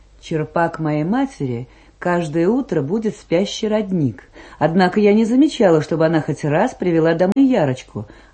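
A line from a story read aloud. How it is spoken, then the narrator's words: Plain. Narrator (Russian): ответила Гельсинем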